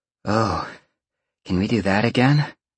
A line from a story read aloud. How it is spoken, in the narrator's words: Roxy purred, having shifted into her hybrid form